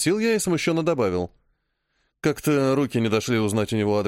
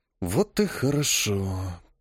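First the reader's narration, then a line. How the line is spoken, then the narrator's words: Mumbling. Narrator (Russian): пробормотал я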